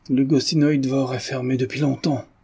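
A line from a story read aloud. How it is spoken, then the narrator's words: Old man's hollow voice. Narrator (French): répondit le vieillard d'une voix creuse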